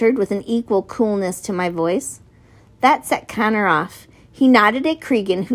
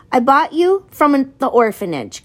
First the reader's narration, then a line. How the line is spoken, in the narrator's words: Connor yelled